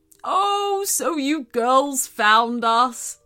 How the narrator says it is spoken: spoke the rabbit

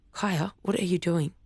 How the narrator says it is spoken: Cabby said, dropping her voice low

